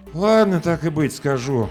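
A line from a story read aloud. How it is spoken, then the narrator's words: Exhaled reluctant admission. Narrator (Russian): выдохнул Ром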